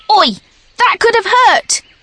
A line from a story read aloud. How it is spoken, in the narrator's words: shouted